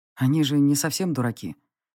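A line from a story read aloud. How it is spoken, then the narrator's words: Quiet remark. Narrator (Russian): тихо заметил он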